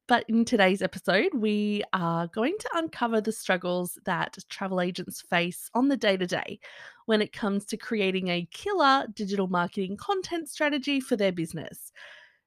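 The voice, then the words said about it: Strained, sore-throated voice. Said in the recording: “I have my fingers crossed that my voice is going to last an entire episode. I haven't been feeling the best, and my throat is not enjoying life much either”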